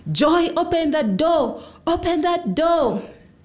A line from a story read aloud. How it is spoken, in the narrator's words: screaming